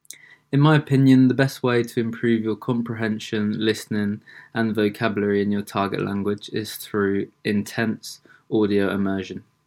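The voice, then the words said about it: British English accent. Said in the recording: “I am from England and not the USA ... my British accent”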